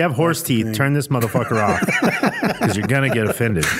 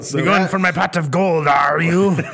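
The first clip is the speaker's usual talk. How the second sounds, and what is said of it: Bad Irish accent sounding pirate-like. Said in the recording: “you're a pirate ... doing pirish ... That's a pirish accent”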